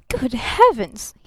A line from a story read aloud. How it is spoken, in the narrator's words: he gasped